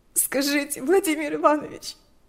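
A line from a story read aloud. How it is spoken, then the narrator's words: Sobbing, shaking. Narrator (Russian): вздрагивала от рыданий Лика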